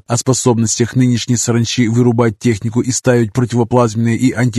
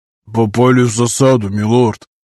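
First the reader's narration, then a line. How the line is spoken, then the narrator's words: Muffled dull report. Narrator (Russian): глухо сообщил Дасти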